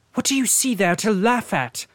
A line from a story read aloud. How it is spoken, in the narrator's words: asked as angrily